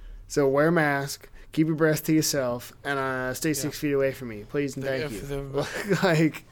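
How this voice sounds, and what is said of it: Usual voice. Nothing is said of it.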